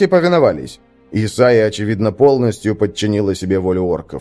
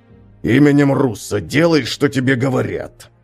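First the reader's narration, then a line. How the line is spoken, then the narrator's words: Hiss. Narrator (Russian): прошипел Хакон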